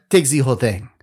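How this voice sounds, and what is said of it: Bad put-on French accent. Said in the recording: “That's the worst French accent ever.”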